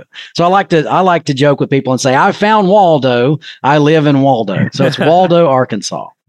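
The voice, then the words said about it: Distinctive Arkansas American accent. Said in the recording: “your amazing accent ... It's pretty unique ... Maybe it's more the Californian accent. I'm not sure, but definitely yours is different”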